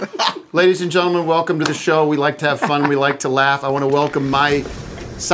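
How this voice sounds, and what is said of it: Usual voice. Nothing is said of it.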